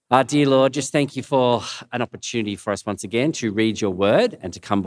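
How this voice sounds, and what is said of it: Croaky, hoarse voice. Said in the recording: “my voice is a bit croaky”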